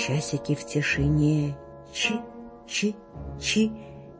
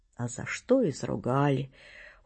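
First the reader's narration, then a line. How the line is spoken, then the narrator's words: Gloomy. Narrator (Russian): уныло говорит он мне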